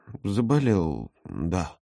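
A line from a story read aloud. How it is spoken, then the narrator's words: Mutter. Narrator (Russian): пробормотал Володя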